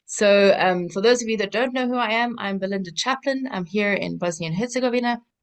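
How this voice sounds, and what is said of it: South African accent. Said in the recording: “I'm originally from South Africa, so that's the accent.”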